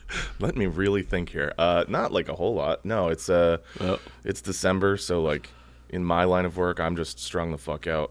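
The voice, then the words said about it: Hoarse, worn-out voice. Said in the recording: “my voice is just completely shot”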